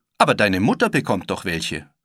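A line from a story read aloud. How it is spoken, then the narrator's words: Calling out. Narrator (German): rief Wendy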